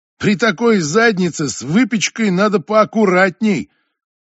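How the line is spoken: Loud, for all to hear. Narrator (Russian): Крис говорит, громко, так, чтобы все слышали

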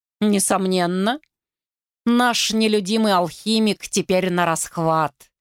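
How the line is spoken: Dry reply. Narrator (Russian): сухо отозвалась Еккен

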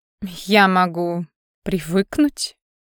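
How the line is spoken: Skeptical snort. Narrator (Russian): хмыкнула Лиана

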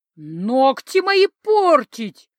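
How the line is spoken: Roar like wounded animal. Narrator (Russian): Раненым зверем взревела

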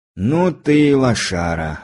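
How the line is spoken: Sigh. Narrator (Russian): вздохнул мой приятель

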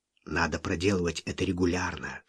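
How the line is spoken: Whisper. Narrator (Russian): шепнул он

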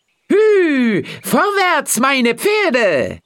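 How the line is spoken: Called out. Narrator (German): rief

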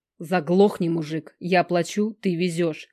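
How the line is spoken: Weak, unthreatening growl. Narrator (Russian): рычу на него, но получается не особо грозно

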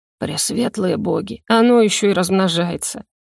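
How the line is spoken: Theatrical suffering groan. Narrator (Russian): Напоказ, страдальчески простонал Даркхелл

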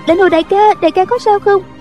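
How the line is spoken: Young woman crying out. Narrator (Vietnamese): Thiếu nữ đó la lên

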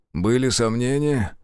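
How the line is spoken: Breathless wheeze. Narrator (Russian): задыхаясь, прохрипел Зотов

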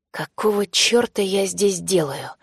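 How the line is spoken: Hoarse wheeze. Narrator (Russian): просипел Ипполит Аркадьевич

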